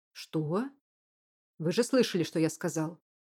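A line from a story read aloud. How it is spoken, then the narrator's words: Barked. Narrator (Russian): рявкнул Клиффорд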